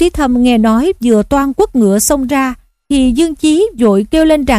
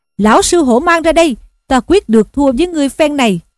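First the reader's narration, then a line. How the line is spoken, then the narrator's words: Eager battle shout. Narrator (Vietnamese): Hô Duyên Trước hăng hái quát lên rằng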